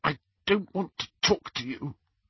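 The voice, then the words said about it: Constricted, tearful voice. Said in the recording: “in a constricted voice”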